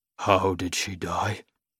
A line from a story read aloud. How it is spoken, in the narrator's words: He whispers